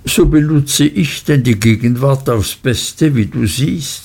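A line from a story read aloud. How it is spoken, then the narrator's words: Plain. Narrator (German): sagte sie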